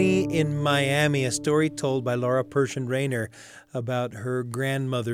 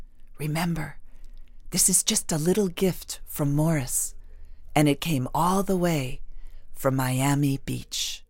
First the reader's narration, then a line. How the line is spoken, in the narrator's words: she whispered in our ears